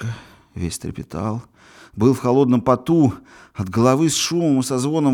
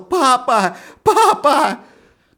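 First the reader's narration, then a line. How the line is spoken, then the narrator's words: Frantic half-awake scream. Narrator (Russian): едва расклеив губы, вне себя закричал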